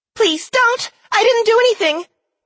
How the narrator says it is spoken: came a familiar squeaky voice

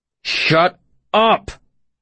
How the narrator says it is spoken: I snarled

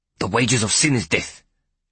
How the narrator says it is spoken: Peake Porter spat out

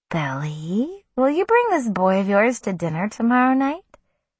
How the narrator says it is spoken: Susanna asked me sweetly

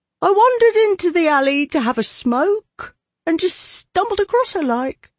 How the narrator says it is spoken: he said in a thin, high voice

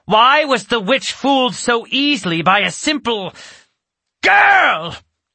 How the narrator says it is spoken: she shrieked

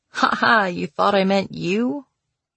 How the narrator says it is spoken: She laughed sadly

